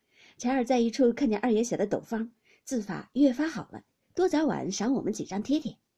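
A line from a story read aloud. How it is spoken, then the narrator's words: Group laughing. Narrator (Chinese): 众人都笑说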